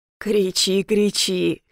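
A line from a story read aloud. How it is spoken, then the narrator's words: Hoarse villain. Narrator (Russian): хрипит мерзавец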